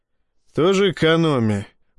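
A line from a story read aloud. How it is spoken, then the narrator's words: Grumbled. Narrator (Russian): проворчал я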